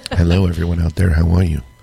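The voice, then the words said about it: Sultry radio-announcer voice. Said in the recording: “my amazing, sultry radio voice”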